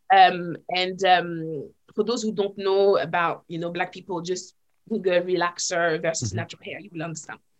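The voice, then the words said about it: French accent. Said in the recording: “my French accent at the time. I mean, I still have it now, but it was more pronounced then.”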